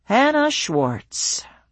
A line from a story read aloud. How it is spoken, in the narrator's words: he drawled the words